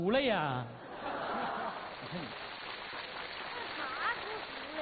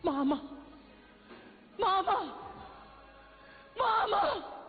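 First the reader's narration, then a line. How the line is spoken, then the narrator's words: Loud shout. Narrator (Chinese): 我高喊了一声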